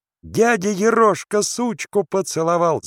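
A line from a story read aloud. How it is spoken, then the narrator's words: Children shouting. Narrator (Russian): закричали вдруг казачата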